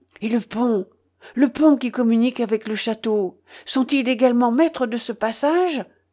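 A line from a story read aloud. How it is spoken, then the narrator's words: Exclamation. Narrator (French): s'écria Ivanhoé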